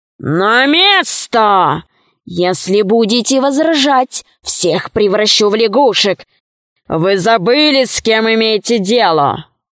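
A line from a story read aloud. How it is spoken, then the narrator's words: Menacing. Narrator (Russian): он так грозно произнес эти слова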